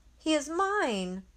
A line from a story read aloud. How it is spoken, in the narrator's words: She shouts